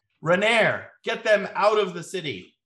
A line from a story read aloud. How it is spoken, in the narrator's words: He yells out